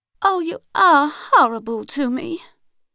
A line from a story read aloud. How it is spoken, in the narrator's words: in her rich Southern American voice, so teeming with feeling and so barren of words